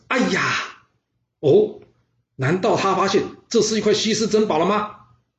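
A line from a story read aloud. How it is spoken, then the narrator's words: Loud cry. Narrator (Chinese): 他大叫一声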